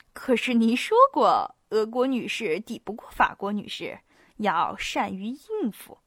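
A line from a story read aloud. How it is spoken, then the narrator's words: Speaking through laughter. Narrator (Chinese): 伊波利特又扑哧一声笑了，透过笑声说道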